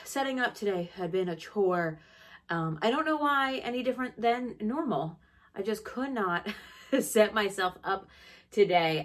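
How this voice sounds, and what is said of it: Slightly breathless speaking voice. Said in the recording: “I sound a little bit out of breath. Whew, I feel a little bit out of breath.”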